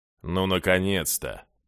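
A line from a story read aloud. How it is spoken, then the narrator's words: Gloomy greeting. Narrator (Russian): мрачно приветствовал Джая глава обережья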